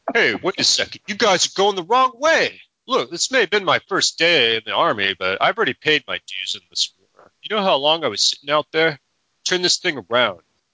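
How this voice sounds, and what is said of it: Put-on British accent. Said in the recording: “That's his British accent.”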